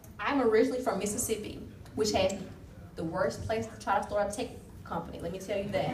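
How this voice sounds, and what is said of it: Mississippi Southern US accent. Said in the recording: “I'm originally from Mississippi ... You probably can't tell by my accent.”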